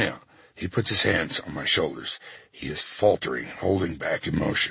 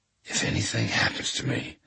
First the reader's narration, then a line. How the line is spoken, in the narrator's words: I whisper